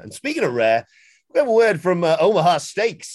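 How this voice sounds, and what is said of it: Imitates another person's voice. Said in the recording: “my best Jericho impression”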